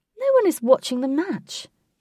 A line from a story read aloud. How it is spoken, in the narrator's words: Katie said in a raised, humorous voice